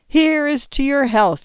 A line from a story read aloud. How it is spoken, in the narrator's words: he cried